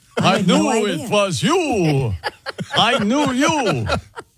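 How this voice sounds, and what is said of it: Put-on vampire accent. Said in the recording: “a vampire accent”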